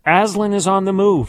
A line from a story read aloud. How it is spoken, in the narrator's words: shouts